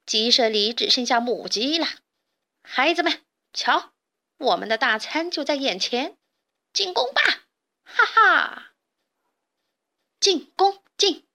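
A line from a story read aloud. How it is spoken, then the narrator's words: Strange cackling laugh. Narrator (Chinese): 强盗巴巴怪声笑道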